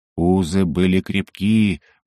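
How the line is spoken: Purring. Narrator (Russian): промурлыкал ключ

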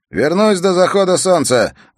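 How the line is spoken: Loud. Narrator (Russian): громко продолжал Джилан

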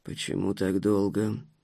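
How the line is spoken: Displeased grumble. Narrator (Russian): недовольно буркнул Витольд Стефанович

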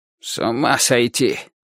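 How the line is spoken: Old man muttering. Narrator (Russian): бормотал дедушка

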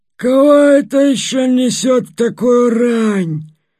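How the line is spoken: Grumbling in unexpected bass. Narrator (Russian): проворчала она неожиданным басом

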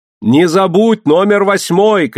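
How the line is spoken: Shouting. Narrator (Russian): крикнула ему Мэри

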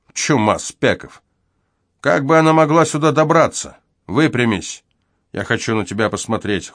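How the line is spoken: Cold. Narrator (Russian): холодно добавил он

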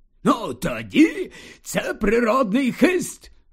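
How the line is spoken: Exclaimed. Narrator (Ukrainian): Вигукнув слизоріг

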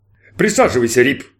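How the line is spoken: Captain's booming voice. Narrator (Russian): прогудел капитан

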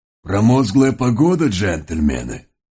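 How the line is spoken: Slightly wheezy horse voice. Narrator (Russian): С характерным легким прихрипыванием обратился к ним пегий жеребец

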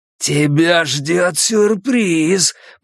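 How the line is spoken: Growled. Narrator (Russian): прорычал он

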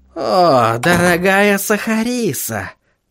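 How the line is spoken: Purring. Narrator (Russian): промурлыкал господин Корней

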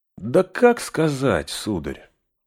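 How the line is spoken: Thoughtful reply. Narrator (Russian): задумчиво отвечал Сэм

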